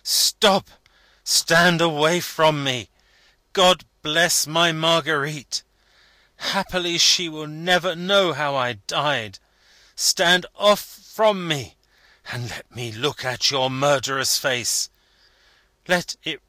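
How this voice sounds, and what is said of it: Terrible, desperate shouting voice. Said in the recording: “in a terrible voice, staggering up with a last flash of fire breaking out of him”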